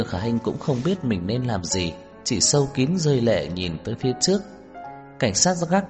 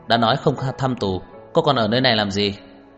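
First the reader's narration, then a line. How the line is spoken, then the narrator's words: Cold question. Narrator (Vietnamese): Cảnh sát gác lạnh lùng hỏi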